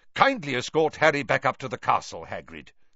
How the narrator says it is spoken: said Dumbledore sharply

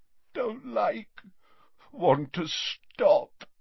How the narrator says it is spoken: moaned Dumbledore

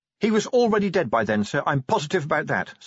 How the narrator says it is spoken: said Angua quickly

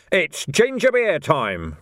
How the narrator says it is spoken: roared someone

